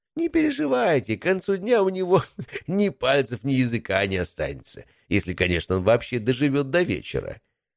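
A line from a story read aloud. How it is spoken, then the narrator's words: Nasty giggling. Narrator (Russian): послышалось мерзкое хихиканье главного дознавателя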